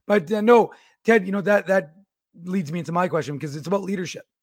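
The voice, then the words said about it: Hoarse, lost voice, cracking. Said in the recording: “I've lost my voice ... You're talking to a prepubescent ... I've officially lost my voice.”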